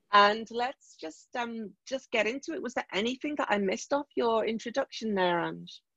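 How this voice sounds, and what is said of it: Vaguely Liverpool English accent. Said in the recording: “my vaguely Liverpoolian accent”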